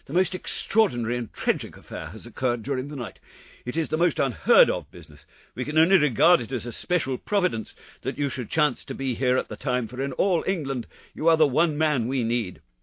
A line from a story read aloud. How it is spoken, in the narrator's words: said the vicar in an agitated voice